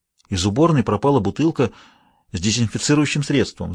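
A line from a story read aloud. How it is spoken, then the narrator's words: Agitated. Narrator (Russian): взволнованно сказала она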